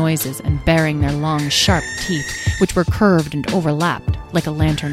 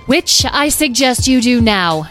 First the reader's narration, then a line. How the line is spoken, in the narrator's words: shouted Carnelian from above